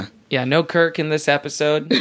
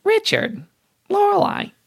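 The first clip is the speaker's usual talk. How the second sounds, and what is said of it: Imitates a TV character's voice. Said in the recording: “That's my Emily Gilmore impression.”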